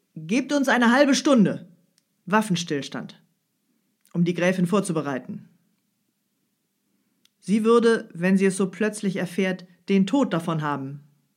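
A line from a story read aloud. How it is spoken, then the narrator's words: Loud voice. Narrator (German): fuhr er mit lauter Stimme fort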